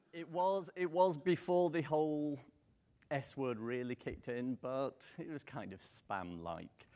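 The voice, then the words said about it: British accent. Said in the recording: “you could probably tell from the accent I'm not local. I'm British.”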